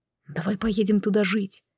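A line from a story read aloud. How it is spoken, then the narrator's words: Repeated whispering in ear. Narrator (Russian): Сэ шептал и шептал на ухо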